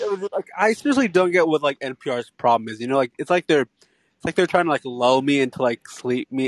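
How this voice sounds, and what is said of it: Usual voice. Nothing is said of it.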